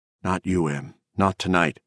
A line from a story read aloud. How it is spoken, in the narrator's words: Moss Harlingen murmuring